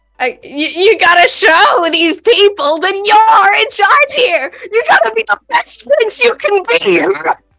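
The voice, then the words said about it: A funny put-on character voice. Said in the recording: “doing this funny voice, quoting this really obscure TikTok ... do the funny voice ... a bit of the funny voice”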